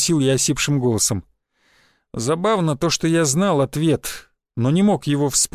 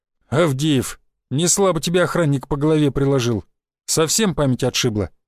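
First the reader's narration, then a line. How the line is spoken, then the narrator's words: Plain question. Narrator (Russian): спросил кучерявый парень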